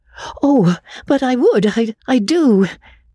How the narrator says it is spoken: Magnolia cried hastily

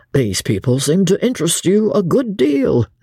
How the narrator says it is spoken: said Dobbin, laughing

